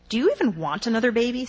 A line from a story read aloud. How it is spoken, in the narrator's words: Sam asked